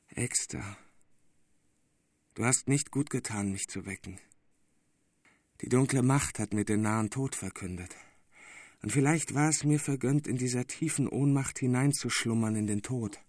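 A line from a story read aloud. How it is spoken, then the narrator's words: Weak faint voice. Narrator (German): der mit matter Stimme sprach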